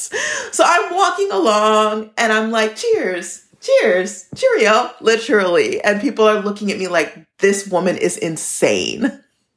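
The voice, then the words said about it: American accent. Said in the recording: “having an American accent ... said that I sounded like a cowboy”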